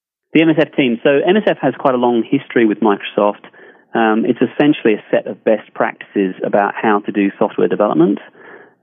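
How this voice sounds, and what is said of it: Mixed English and Australian accent. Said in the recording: “England to Australia to Redmond ... I have a pretty confused accent, I'm sure, as a result.”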